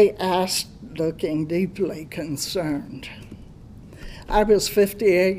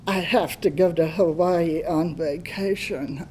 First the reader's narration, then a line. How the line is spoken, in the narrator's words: moaned